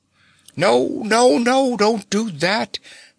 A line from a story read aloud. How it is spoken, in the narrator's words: begged Nox, rolling his eyes in terror